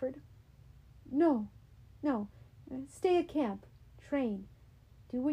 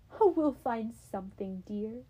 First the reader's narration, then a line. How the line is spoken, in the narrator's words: mother sighed